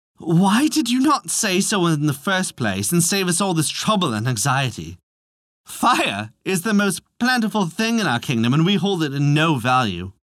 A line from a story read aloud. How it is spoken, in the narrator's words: The messengers laughed and laughed and said